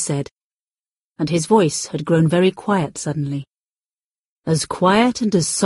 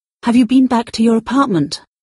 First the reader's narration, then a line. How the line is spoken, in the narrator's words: I asked him urgently